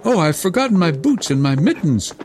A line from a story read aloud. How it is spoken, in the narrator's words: cried Gerda, as soon as she felt the cutting cold